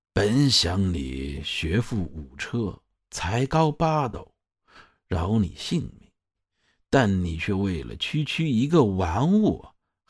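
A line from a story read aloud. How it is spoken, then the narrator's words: Sighing. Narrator (Chinese): 叹了一声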